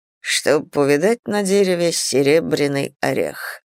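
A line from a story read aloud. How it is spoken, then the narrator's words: Softly humming. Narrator (Russian): мурлыкал Мартин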